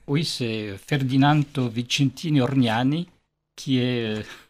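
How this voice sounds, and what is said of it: Name said with foreign accent. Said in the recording (French): “Avec l'accent.”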